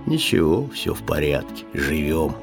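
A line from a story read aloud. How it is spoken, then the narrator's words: Pensive sad bass. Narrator (Russian): Задумчивый грусть басил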